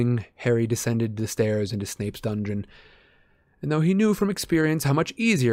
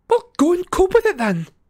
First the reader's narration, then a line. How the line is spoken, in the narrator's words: said Cho furiously